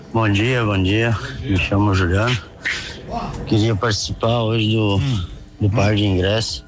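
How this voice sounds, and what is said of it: Tired-sounding voice. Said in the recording (Portuguese): “Ele tá cansado, né, meu? ... Ele tá com uma voz de cansado ... Ele tá cansado.”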